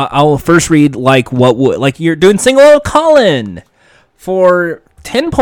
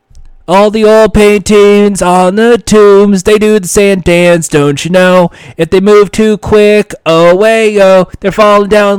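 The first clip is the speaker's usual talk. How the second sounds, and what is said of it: Sings imitating another person's voice. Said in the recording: “let me just try my best to do my impersonation Colin Quinn singing a hit song”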